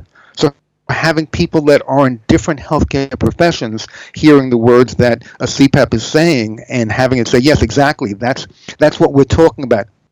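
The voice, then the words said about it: New York accent. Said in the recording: “most people have picked your accent by now, being originally a New Yorker”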